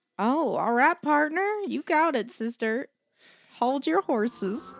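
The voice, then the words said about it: Put-on country accent. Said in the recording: “Do it in a country accent.”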